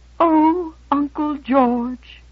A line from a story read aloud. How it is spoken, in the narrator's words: her lower lip began to tremble, and she quavered